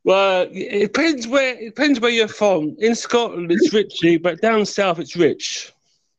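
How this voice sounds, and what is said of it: London English accent. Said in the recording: “as you can tell by my accent, I'm originally from London ... I was thinking that does sound south of me actually”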